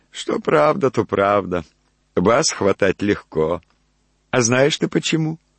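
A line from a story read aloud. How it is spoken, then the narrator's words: Devil's loud merry laugh. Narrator (Russian): Черт весело засмеялся, так что даже спугнул какую-то ночную птицу и сказал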